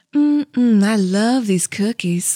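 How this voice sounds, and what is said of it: Put-on gentle Southern accent. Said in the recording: “like that kind of Southern, like that. Like, I like a nice Southern, like it was sipping tea on the porch... That's a nice Southern accent.”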